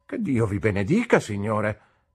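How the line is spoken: Aunt's brusque exclamation. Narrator (Italian): esclamò mia zia coi suoi modi bruschi

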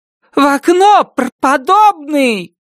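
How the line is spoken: Shouted into ear. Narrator (Russian): крикнула ему на ухо Нан Робертс

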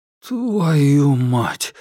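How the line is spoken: Strained forced words. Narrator (Russian): выдавил он

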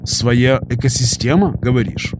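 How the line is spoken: Meaningful grunt. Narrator (Russian): Я многозначительно хмыкнул

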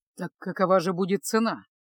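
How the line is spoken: Grim repeated question. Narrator (Russian): мрачно повторил свой вопрос Кайл

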